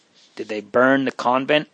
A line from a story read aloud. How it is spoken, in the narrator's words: asked Marie in a faltering tone